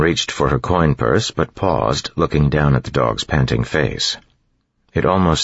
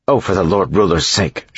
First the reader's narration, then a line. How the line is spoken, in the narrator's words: snapped